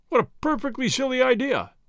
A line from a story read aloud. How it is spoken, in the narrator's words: he exclaimed after a time